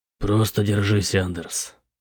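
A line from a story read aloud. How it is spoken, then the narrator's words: Quiet speech. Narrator (Russian): тихо сказал Бэтрим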